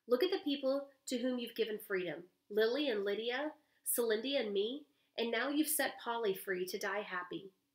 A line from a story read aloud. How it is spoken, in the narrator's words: Violet exclaimed